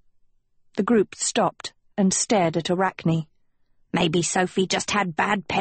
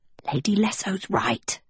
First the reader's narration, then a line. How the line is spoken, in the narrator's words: Anadil whispered